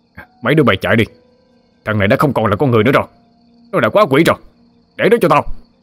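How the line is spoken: Shouting. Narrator (Vietnamese): ngoái đầu lại la lên

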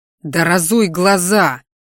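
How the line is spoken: Gruff growl. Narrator (Russian): рыкнул

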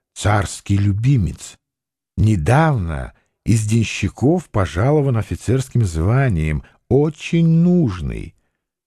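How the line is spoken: Whispered. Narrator (Russian): Гамильтон шепнул ему

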